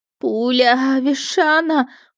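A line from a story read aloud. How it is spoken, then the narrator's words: Pained moan. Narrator (Russian): простонала я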